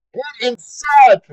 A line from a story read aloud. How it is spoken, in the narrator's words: Philip yelled